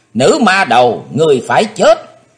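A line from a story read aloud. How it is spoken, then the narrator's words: Shouting old demon woman. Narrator (Vietnamese): quỷ bà theo tiếng hét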